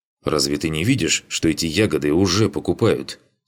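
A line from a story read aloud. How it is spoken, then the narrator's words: Angry. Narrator (Russian): Сердито сказал он ему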